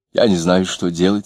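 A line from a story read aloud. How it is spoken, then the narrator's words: Plain. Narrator (Russian): сказала она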